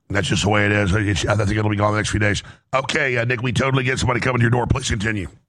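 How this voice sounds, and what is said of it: Hoarse voice. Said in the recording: “As you can hear, my laryngitis is still here. I've never had laryngitis this bad, but it's about half gone.”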